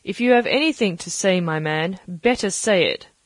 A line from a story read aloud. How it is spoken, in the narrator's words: said the captain